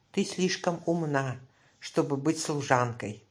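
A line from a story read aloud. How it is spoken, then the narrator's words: Plain. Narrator (Russian): сказал Али-Баба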